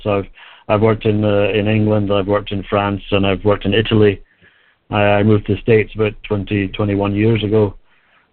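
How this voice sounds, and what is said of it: Scottish accent. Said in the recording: “you can probably tell from my accent I'm not from around here ... I actually grew up in Scotland”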